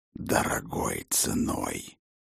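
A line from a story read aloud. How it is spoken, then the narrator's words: Wolf grumbling. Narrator (Russian): проворчал волк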